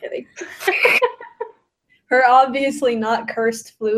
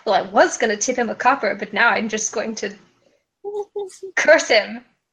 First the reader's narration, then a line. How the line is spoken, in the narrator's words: Resnoan just mutters to herself